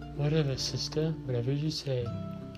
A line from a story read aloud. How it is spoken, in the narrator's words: he said in that Casanova voice